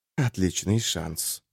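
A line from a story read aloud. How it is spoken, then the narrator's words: Quiet. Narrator (Russian): сказал кто-то, но так негромко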